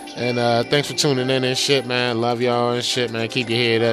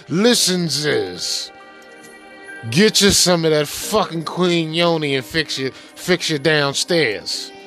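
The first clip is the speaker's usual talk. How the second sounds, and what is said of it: Fauci impression. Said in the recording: “in my Fauci voice”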